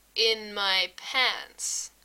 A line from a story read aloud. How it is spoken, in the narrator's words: Frank says slowly